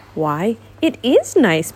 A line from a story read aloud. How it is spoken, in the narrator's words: Piglet said cheerfully